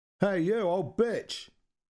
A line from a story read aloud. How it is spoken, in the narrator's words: One of them called out